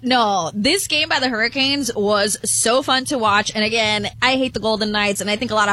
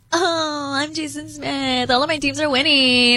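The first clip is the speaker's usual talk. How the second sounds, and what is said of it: Mocking Valley Girl impression. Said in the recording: “why are you going Valley Girl with my impression? ... That's not how I sound.”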